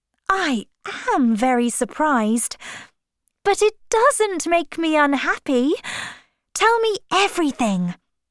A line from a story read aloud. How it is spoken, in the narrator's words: cried